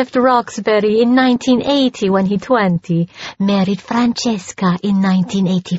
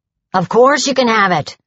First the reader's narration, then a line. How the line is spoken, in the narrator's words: he snapped